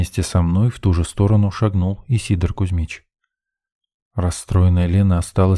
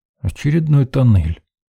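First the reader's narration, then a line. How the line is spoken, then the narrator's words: Muttered. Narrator (Russian): буркнул я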